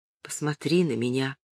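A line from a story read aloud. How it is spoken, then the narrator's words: Very quiet. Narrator (Russian): Очень тихо он сказал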